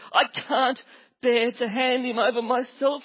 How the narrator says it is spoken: he cried

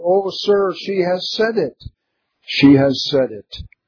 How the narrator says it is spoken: Her relatives and friends immediately cried out

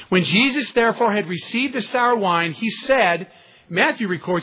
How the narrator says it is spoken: he cried out with a loud voice

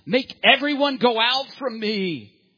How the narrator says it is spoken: Two decades of pent-up emotion was finally released as Joseph bellowed out

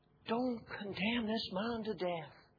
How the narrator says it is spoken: she pleaded with him

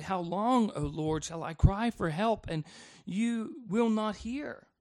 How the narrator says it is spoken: an emotional question where he cries out to God

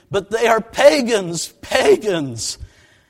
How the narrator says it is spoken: break down sobbing in tears, saying

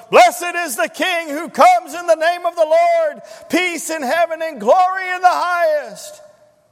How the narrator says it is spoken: the giant fellow next to me nearly burst my eardrums as he bellowed

